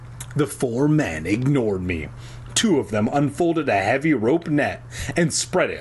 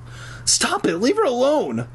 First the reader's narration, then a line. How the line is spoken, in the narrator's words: I cried